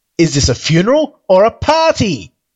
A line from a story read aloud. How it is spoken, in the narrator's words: bellowed